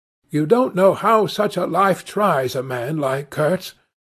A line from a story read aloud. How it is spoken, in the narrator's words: cried Kurtz's last disciple